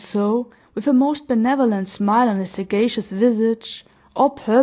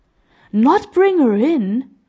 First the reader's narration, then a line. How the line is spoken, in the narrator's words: exclaimed the kind-hearted man